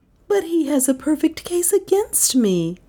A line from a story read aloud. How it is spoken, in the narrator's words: sighed Dale